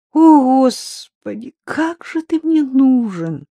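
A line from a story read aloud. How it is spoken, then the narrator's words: Near-moan, longing. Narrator (Russian): Чуть не простонала Рита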